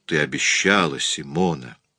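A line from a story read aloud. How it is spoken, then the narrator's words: Soft. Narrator (Russian): начал мягко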